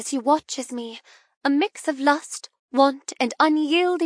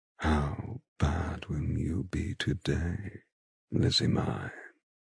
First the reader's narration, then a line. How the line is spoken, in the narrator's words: He asks me in a hypnotic voice